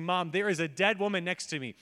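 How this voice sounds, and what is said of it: Loud exclaimed line. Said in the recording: “said this loudly”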